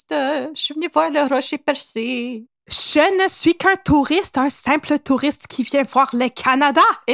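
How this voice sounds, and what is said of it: Put-on foreign accent, not very good. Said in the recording (French): “C'est pas super mon accent”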